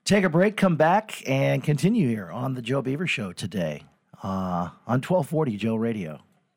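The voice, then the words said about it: Strained, failing voice. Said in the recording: “I'm really losing my voice.”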